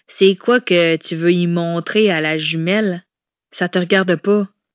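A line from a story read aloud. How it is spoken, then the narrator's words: Curt retort. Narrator (French): répliqua sèchement Rosalie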